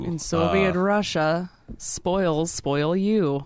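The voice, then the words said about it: Put-on Russian accent, not quite right. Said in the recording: “Your Yankoff needs some work there. There's something about the structure that you're not quite nailing ... my Russian accent”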